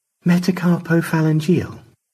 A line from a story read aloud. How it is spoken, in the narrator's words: Stanley sighed